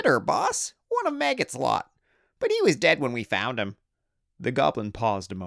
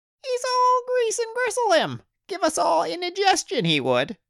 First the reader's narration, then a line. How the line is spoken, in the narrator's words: squeaked another greenskin